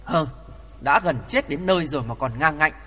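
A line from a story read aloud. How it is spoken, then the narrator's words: Angry. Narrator (Vietnamese): Bị mắng, Tổng Đường Chủ Lý Vân Hương tức giận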